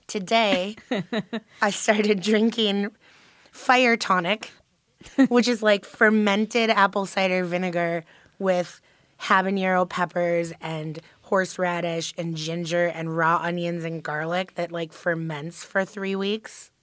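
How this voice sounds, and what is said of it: Sick, unusual-sounding voice. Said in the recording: “my voice is, like, insane right now because I have been sick for, like, a month and a half”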